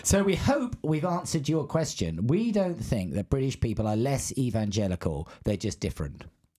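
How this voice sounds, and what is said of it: English-sounding accent. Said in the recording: “I sound pretty English... I've got an English accent.”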